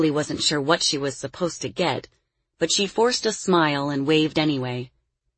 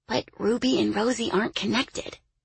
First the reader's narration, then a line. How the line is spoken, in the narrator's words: Lily whispered